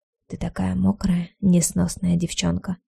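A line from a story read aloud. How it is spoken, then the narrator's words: Whisper. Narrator (Russian): прошептал он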